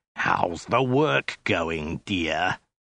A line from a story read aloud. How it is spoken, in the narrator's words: the soldier snarled again